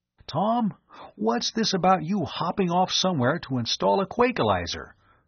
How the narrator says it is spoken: he asked anxiously

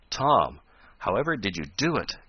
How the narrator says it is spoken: gasped Ned at length

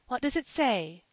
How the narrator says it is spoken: gasped Mrs

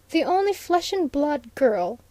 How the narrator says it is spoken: scoffed the doctor

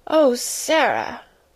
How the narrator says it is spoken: almost whimpered Miss Amelia

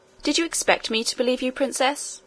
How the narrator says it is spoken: asked the nurse coldly

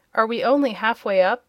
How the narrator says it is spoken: inquired, in a discouraged tone

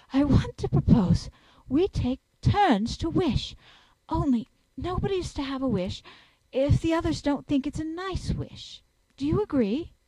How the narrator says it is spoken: Anthea, breathless from the scurry of that slipping, panted out

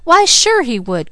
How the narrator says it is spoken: cried Mickey with his most elaborate flourish

